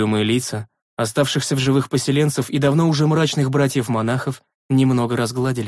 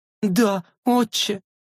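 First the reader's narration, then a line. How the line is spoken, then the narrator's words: Sobbing woman. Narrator (Russian): всхлипнула женщина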